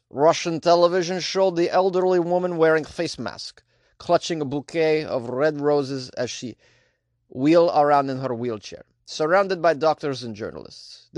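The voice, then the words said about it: Poor put-on Russian accent. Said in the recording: “This is probably the worst Russian accent you could ever do.”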